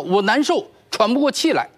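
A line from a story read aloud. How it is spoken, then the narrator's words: Breathless loud shout. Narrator (Chinese): 呼吸急促，他大声喊道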